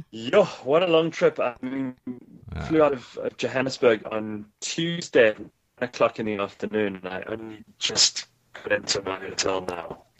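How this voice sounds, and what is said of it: South African accent. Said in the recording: “we still have our South African accents ... Yeah, I can tell.”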